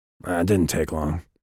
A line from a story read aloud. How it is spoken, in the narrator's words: Vikas said, his voice flat and harsh